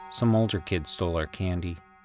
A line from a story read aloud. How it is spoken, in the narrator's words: he mumbled